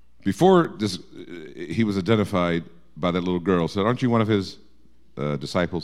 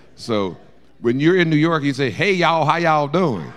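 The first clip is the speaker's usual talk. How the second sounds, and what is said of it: Put-on Southern US accent. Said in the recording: “sounded like someone from the deep in the south in the in the 1800s”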